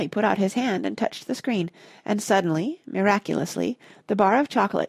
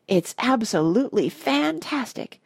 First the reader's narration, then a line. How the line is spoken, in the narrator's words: gasped Grandpa Joe